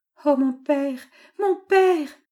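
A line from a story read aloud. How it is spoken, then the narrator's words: Moaned. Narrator (French): gémit Marguerite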